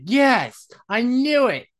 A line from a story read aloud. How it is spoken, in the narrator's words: Jen puts her drink down excitedly, saying